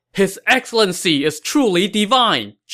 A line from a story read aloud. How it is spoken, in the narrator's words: Zhang Yi shouted